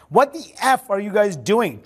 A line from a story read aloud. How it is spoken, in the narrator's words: Trump screamed at Biggs